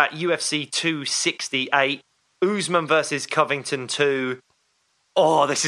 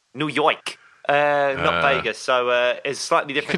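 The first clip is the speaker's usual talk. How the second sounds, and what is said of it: Good put-on New York accent. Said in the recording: “Your accent was way better than mine then.”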